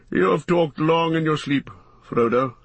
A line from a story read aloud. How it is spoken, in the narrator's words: said Gandalf gently